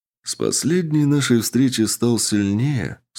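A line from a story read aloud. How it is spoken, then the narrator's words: Calm. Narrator (Russian): спокойно произнес он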